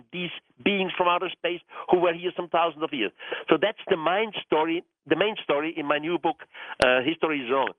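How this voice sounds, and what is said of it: Non-native Swiss German accent. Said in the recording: “I'm Swiss. My first language is German... English is my fourth language, so my accent may not be the perfect one”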